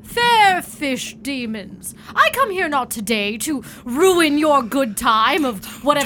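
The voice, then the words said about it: Grandiose, theatrical voice. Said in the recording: “in my most grandiose voice,”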